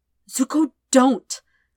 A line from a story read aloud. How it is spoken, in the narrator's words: Sokka said desperately